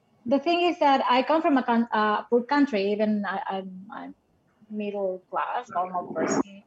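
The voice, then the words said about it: Non-native English accent. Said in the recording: “I was full of accent still. I'm still on, but I'm getting better.”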